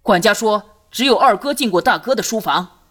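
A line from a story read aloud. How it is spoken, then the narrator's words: Loud. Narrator (Chinese): 朱刚大声道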